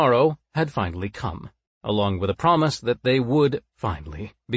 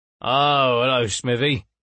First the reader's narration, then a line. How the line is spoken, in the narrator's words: he slurred